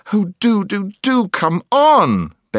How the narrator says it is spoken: begged Jill

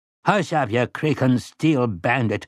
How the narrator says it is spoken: Grandpère said crossly

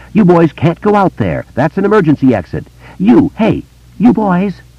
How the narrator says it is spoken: Peepers exclaimed

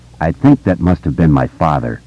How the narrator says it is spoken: Stan said in a low, pleasant voice

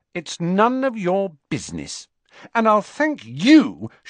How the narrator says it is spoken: she added angrily to Ron

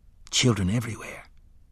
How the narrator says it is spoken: the guard said gently

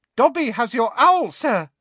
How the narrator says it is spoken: said a squeaky voice

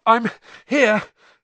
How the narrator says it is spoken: Harry panted

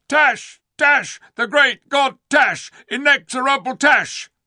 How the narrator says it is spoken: all the Kalormans shouted

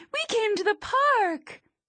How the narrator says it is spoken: She chirps

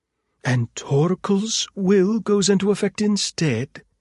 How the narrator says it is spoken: Hedwig exclaimed

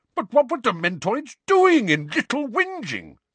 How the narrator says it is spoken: said Uncle Vernon in an outraged tone

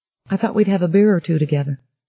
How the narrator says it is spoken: Bobby said evenly

